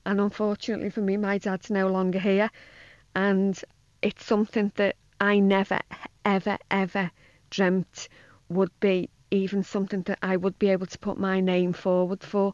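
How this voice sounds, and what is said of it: Emotional voice. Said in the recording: “I'm probably quite emotional ... You probably hear the emotion in my voice”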